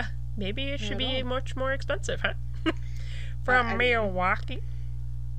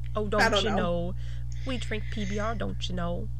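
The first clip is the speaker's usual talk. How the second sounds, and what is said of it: Deliberately bad Milwaukee accent. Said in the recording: “I am doing a very terrible Milwaukee accent ... Is it like Canadian?”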